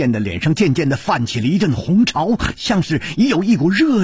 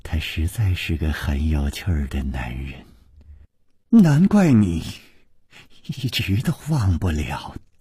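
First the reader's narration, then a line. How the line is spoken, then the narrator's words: Murmured. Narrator (Chinese): 宫南燕喃喃地说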